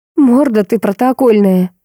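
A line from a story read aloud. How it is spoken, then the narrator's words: Laughing. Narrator (Russian): рассмеялась Варя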